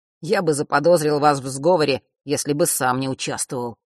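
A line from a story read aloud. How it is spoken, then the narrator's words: Grumbled. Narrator (Russian): пробурчал тот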